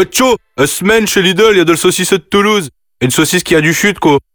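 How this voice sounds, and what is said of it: Northern French accent. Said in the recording (French): “avec un accent du Nord”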